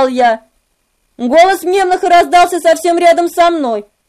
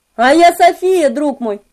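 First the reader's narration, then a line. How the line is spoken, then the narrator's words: Plain. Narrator (Russian): ответил он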